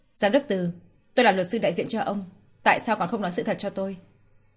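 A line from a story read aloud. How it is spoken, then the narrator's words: Cold, suppressed frustration. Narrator (Vietnamese): ức chế không chịu được, nàng lạnh lùng lên tiếng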